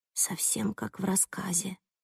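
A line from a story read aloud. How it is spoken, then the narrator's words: Mumbling. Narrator (Russian): бормочет Сандра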